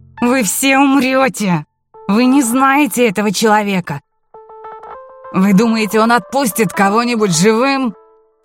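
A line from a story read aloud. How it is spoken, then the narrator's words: Shouted. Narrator (Russian): Один из помощников Кнопфа крикнул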